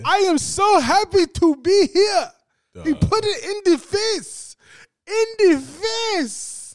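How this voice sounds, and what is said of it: Put-on African accent. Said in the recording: “Your African accent is kind of good.”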